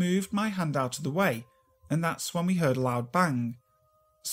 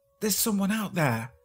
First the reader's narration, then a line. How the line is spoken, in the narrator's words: whispered